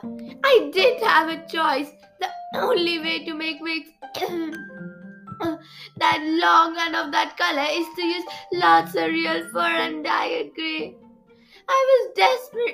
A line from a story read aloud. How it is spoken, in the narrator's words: sobbed